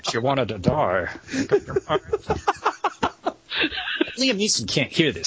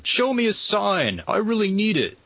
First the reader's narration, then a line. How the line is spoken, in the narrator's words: Liam Neeson yells at God